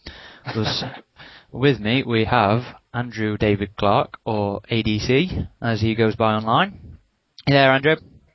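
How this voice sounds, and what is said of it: British accent. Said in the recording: “two lovely British accents to assault the American”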